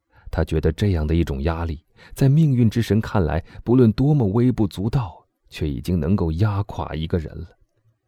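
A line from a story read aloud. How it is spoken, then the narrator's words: Soft. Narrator (Chinese): 大臣轻声地说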